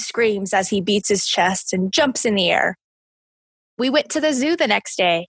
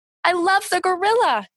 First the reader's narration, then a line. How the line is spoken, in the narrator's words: cried